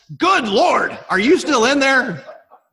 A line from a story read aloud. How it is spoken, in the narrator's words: yells